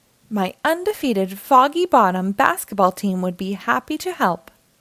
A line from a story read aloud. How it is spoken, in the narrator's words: grumbled Mayor Humdinger